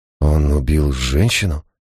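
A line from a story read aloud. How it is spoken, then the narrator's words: Breathless. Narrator (Russian): выдохнул Гай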